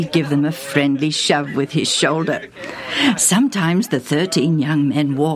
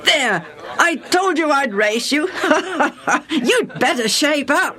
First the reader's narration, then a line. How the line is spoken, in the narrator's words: the challenger, who was also the winner, would say, panting